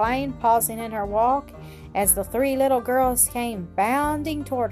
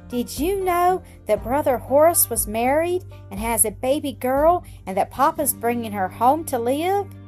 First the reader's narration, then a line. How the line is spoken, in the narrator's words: cried, all speaking at once